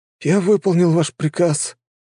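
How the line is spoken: Hoarse young man. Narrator (Russian): прохрипел паренек

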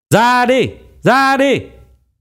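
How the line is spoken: Howling like hungry wolves. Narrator (Vietnamese): Âm thanh đó giống như tiếng của một đàn sói đói kêu gào

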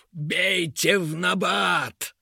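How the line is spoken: Barked in a strange voice. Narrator (Russian): Не своим голосом гаркнул король-дворец

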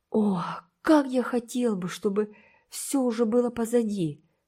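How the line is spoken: Moaning. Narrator (Russian): стонал Уолтер

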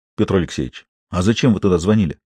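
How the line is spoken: Quiet impulsive question. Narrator (Russian): Виктор не удержался и спросил негромко

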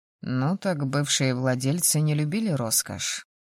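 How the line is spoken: Wry snort. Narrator (Russian): хмыкнул мой спутник

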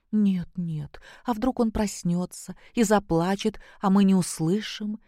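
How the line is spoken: Frightened objection. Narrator (Russian): испуганно возразила Наташа

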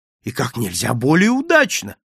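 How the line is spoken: Delighted exclamation. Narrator (Russian): воскликнул я восторженно

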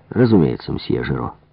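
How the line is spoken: Cold. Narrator (Russian): холодно произнес следователь

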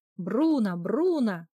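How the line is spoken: Loud shouting. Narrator (Russian): громко кричала Анни

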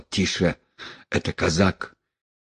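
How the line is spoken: Muttered. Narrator (Russian): один из них пробормотал

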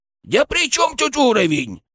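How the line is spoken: Indignant snort. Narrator (Russian): возмущенно фыркнул

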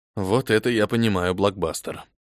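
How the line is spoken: Muttered. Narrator (Russian): пробормотал я

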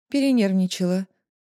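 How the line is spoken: Calm female voice. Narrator (Russian): спокойно говорит другой, женский голос

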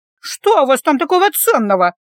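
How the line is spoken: Snorting. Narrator (Russian): фыркнула

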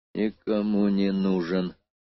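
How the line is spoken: Wary mutter. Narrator (Russian): пробормотал он, предчувствуя вспышку какого-то сверхнового плана

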